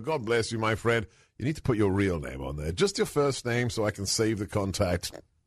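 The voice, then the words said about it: Calm British accent. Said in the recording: “your calming British accent”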